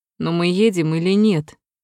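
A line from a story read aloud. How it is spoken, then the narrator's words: Grumbling. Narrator (Russian): Водитель проворчал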